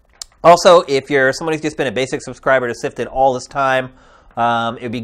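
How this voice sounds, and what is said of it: Slightly nasal, congested voice. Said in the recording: “I've been a little bit under the weather for like 3 or 4 days, so I'm sure my voice has been a little nasally today.”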